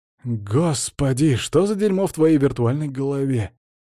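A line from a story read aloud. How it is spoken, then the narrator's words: Groaning. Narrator (Russian): простонал я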